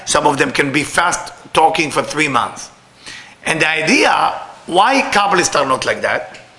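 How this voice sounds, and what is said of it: Speaks English with a foreign accent. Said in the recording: “I'm sorry, with my accent sound bad... Sound really bad.”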